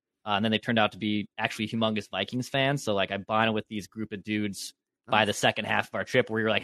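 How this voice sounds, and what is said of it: Canadian-sounding accent. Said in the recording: “they thought I was also from Canada, given my accent.”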